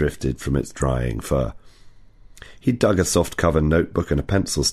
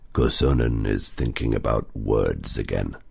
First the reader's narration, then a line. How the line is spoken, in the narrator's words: Otso growled